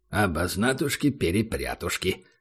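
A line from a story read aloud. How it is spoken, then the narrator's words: Mumbled. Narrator (Russian): пробормотал Убер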